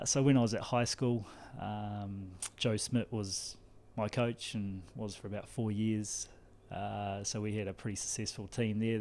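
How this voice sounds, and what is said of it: New Zealand accent. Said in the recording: “you'll notice the accent is not Cork. I'm from New Zealand.”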